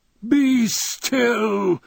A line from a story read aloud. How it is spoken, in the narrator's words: he screamed